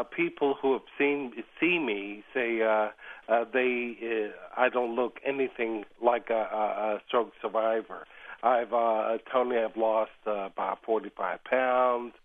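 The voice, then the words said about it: Voice not yet fully recovered. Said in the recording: “as you can hear. My voice is still has a ways to go.”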